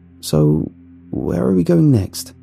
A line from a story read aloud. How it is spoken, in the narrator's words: I asked in a shaky voice